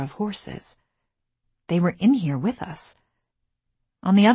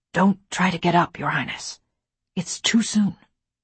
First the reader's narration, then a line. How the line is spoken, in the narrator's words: whispered